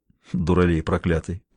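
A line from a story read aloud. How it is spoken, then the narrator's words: Muttering. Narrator (Russian): пробормотал он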